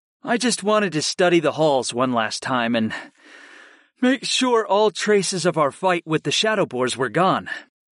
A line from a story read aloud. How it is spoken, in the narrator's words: I said simply